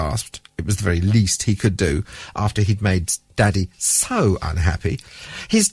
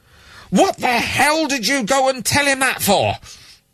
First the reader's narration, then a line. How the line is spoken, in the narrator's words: was shouting